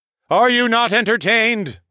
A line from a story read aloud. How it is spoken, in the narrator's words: I bellowed in triumph, just like Maximus from Gladiator